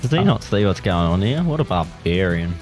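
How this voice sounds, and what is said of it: Put-on accent. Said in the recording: “You should do that accent for a character. ... That was good.”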